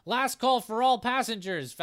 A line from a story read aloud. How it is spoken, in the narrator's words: Val shouts